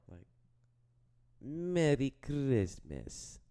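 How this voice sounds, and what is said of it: Attempted Russian accent. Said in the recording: “can you do a Russian accent? ... I don't think that's Russian. That's like ... South Middle Eastern.”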